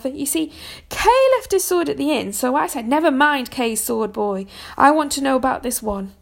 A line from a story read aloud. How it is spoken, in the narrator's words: shouted Sir Rector